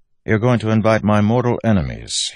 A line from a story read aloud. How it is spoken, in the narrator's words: he said dryly